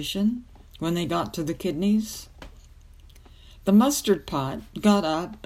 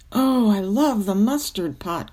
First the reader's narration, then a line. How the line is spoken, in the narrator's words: cried the wart